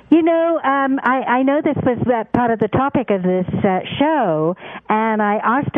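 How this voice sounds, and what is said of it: British accent. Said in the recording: “I love that British accent”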